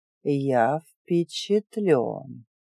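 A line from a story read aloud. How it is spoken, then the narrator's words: Drawled. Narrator (Russian): протянул он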